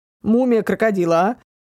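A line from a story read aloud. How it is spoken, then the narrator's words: Snort. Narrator (Russian): Фыркнул он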